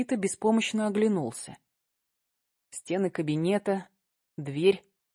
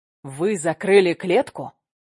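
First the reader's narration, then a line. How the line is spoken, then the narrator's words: Barked. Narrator (Russian): рявкнул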